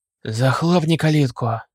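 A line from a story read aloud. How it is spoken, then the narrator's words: Decisive bark. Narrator (Russian): решительно рявкнул тот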